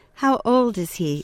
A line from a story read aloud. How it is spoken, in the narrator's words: asked the vet